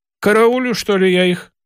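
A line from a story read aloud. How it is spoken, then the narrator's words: Angry retort. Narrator (Russian): сердито отозвалась Яничкова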